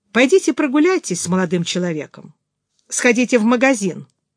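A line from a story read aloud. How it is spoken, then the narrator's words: Composed, stern. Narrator (Russian): взяв себя в руки, строго произнесла Флоренс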